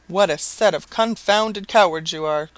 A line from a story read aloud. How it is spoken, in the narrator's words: cried the landlord